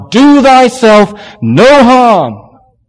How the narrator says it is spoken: Paul called out

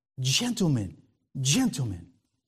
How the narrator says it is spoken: He was almost out of control as he whispered

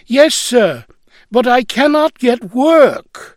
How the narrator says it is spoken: still whining

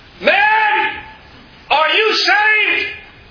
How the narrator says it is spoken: John Harper called out

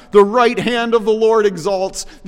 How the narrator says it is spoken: The priests in the temple shout

